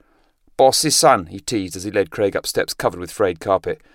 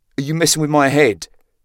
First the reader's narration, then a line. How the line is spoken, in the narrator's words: Craig blurted angrily